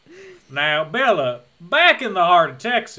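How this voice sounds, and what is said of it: Thick Southern drawl. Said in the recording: “his like lip is curled up. His drawl is so thick ... Your accent's really southern”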